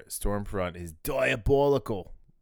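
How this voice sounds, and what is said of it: Bad put-on New Zealand accent. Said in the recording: “In a really bad New Zealand accent.”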